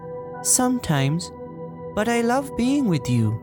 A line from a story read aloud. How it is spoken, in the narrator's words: Ariel replied, a bit sadly